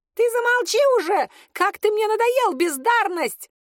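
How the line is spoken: Little imp yelling. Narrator (Russian): заорал бесенок

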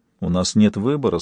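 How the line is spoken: Quiet speech. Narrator (Russian): сказал тихо

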